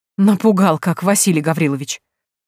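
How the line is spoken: Relieved exclamation. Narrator (Russian): облегченно воскликнула Степанида Пантелеймоновна

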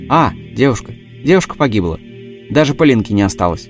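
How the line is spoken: Calm old man. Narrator (Russian): спокойно проговорил старик

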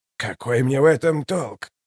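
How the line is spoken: Quiet, even question. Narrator (Russian): Тихо, ровно спросил он

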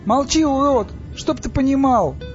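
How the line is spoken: Yelled. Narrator (Russian): Стас заорал

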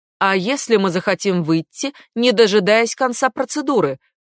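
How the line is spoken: Shouted over running water. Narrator (Russian): крикнула Гейнер, пытаясь перекрыть шум воды

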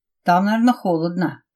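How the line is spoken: Grumbling. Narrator (Russian): проворчал Иван

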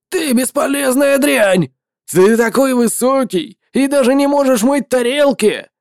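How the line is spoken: Shouting. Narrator (Russian): Владелец магазина с моллюсками закричал

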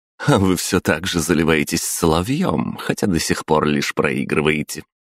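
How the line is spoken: Laughing, mocking. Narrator (Russian): хохотнула Пожарская

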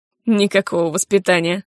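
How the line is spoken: Snorting. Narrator (Russian): фыркнул он

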